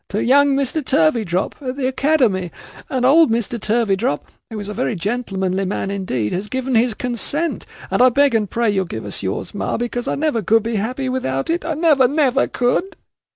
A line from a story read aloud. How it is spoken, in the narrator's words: sobbed Caddy, quite forgetful of her general complainings and of everything but her natural affection